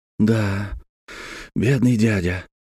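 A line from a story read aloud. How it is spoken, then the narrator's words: Sighing. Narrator (Russian): вздохнул Жиль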